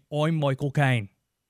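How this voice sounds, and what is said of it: Bad Michael Caine impression. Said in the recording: “Terrible Michael Caine impression.”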